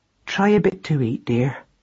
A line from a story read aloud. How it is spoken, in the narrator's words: said Madeline gently